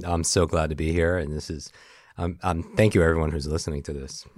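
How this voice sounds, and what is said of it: Deep, rich baritone podcast voice. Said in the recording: “your baritone is coming in thickness ... You have such a good podcast voice ... yours sounds so sexy”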